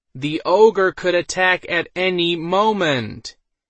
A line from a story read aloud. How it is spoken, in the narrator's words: he spoke in a louder voice